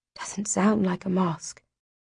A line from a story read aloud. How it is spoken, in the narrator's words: Darin whispers